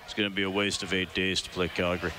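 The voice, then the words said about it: Imitates another person's voice. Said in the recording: “That's my Daryl Sutter ... I was just going on the accent there ... I got to refine the impression. It's not totally done.”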